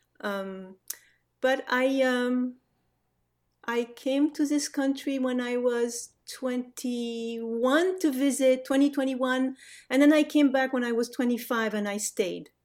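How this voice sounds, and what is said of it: French accent in English. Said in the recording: “family moved back to France when I was five ... a French growing up ... the accent is there to stay. There is no getting rid of it.”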